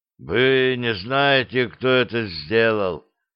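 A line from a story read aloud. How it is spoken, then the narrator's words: Strained, forced out. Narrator (Russian): выдавил полковник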